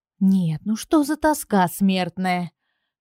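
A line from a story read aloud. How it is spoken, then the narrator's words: Irritated thought. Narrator (Russian): подумала раздраженно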